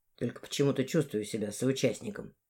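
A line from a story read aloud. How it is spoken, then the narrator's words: Muttering. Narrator (Russian): буркнул он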